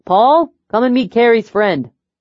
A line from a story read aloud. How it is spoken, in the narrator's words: Jason called out